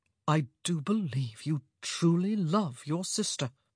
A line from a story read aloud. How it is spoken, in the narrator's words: said softly